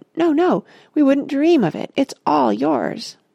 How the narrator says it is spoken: the others all cried

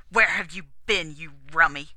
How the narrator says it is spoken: Max Rostov snarled

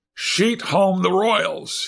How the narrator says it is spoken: he cried

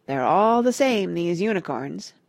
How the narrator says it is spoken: Parrot went on gloomily

